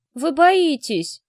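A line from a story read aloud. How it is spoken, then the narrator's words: Shout. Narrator (Russian): крикнул Денька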